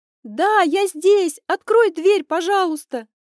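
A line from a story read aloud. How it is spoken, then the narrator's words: Frightened shout. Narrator (Russian): Крикнула я, не отрывая испуганного взгляда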